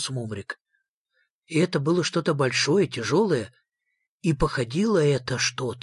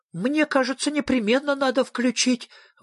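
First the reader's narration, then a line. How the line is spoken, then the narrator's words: Exclaiming. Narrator (Russian): воскликнул Сниф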